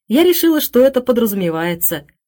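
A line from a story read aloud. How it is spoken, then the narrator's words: Laughing. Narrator (Russian): засмеялась Хелен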